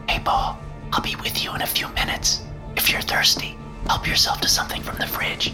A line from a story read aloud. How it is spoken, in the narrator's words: She covered the mouthpiece of the phone and whispered